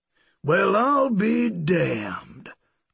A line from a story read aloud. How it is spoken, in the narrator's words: Zeke Cotton drawled